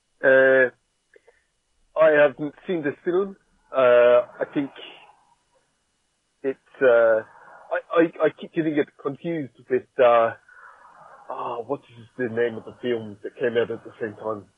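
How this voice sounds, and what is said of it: Put-on South African accent. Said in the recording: “try out my South African accent”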